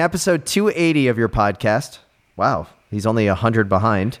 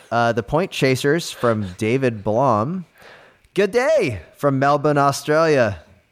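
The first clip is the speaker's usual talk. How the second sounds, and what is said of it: Put-on Australian accent. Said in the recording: “I'm not going to continue with the accent”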